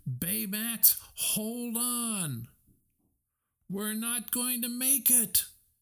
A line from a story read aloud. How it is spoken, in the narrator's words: Wasabi howled